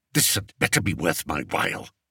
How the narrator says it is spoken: snapped Spittleworth

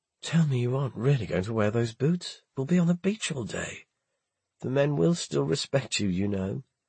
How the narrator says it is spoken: A sleepy voice murmured

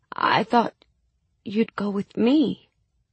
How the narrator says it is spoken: I stammered

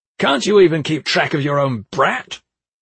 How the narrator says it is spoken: He was always flying into a rage and yelling

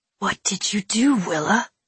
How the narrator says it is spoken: he whispered

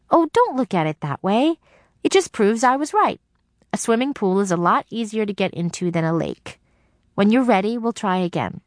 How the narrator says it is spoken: There was a pause before Dee Dee, in her most cheerful voice, said

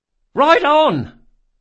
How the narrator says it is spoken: cried Bug

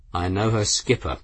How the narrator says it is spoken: the grim captain said calmly

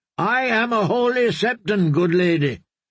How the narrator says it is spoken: Marybold had shouted up

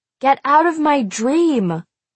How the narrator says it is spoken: hollered at him over the wind

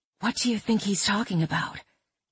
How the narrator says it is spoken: Mad whispered

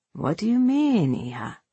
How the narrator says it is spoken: Her sigh

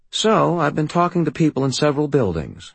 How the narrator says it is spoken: I said in a calm, conversational tone

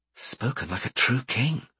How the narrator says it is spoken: whispered Einan

